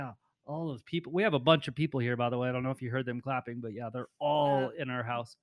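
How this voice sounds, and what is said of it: Usual voice. Nothing is said of it.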